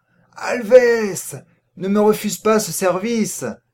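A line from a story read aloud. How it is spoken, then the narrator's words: Exclaimed again. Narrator (French): s'écria-t-il à nouveau, relevant la tête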